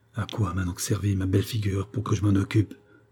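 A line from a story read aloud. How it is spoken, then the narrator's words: Low-voiced addition. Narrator (French): ajouta-t-elle à voix basse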